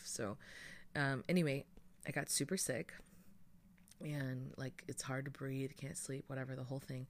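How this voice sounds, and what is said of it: Stuffy, congested voice. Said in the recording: “you can probably hear it in my voice now. I sound stuffy.”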